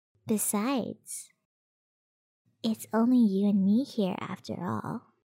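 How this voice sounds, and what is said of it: Whispering close to the ear. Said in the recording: “me whispering in your ear”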